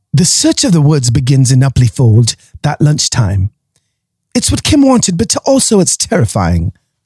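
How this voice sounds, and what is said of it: Put-on British accent. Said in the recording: “suddenly everyone has a British accent.”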